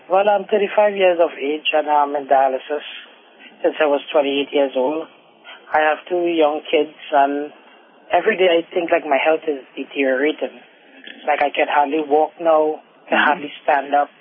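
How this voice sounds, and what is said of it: Trinidadian accent. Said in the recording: “You have an accent. Where are you from? ... I'm from Trinidad.”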